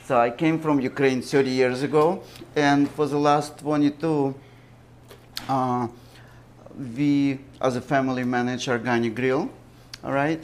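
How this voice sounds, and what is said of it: Foreign accent. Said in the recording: “my accent, I wasn't born here”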